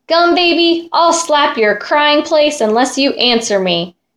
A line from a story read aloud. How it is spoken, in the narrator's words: shouted the fairy